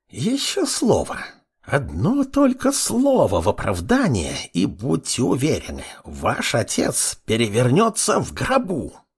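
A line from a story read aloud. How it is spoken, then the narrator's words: Old woman hissing. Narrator (Russian): Прошипела старушка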